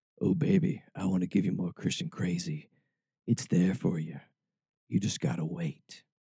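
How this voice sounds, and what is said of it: Seductive bedroom voice. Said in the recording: “in my bedroom voice.”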